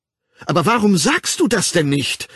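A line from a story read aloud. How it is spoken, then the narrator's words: Indignant exclamation. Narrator (German): rief sie, und sie war so ungehalten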